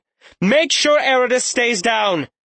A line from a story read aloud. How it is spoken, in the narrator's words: she simply shouted